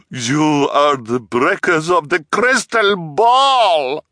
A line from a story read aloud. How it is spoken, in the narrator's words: she bellowed